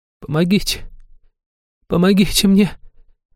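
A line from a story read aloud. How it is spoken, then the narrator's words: Moaning into thin whimper. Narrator (Russian): Простонала женщина, срываясь в тонкое хныканье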